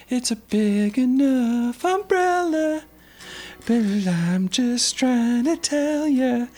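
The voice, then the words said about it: Imitates another person's singing voice. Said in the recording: “Casey Musgraves? ... Sorry for that impression”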